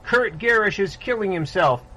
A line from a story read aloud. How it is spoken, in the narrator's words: was screaming